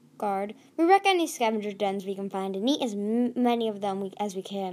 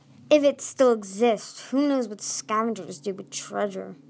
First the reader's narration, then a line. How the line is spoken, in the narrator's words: muttered the other guard